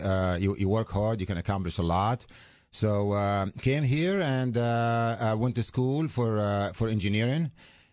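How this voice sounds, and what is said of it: Foreign accent. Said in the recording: “Got an interesting accent here”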